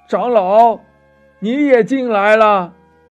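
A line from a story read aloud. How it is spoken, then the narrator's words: Called out. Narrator (Chinese): 有人叫道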